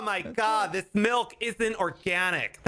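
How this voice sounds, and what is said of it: Snobby, bougie put-on voice. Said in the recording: “talking like a bougie Green Bay Packers fan”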